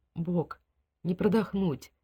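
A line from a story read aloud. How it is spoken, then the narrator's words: Barely audible. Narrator (Russian): чуть слышно выговорил Стюарт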